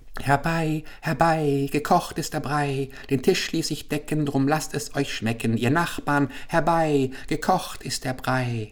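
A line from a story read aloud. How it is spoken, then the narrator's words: Old woman, singsong call. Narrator (German): eine alte Frau schaute heraus und rief mit singender Stimme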